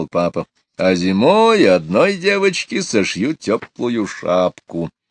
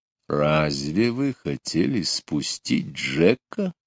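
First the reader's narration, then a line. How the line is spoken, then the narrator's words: Frightening voice. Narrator (Russian): страшным голосом спросил он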